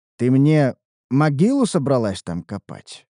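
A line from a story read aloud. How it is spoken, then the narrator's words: Dry curt. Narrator (Russian): проговорил я сухо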